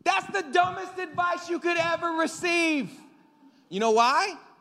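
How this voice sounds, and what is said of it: Yelling, raised loud voice. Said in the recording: “I'm sorry I'm yelling at you”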